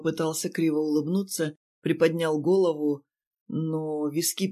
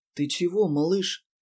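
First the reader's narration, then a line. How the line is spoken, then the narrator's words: Gentle question. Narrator (Russian): спросил ласково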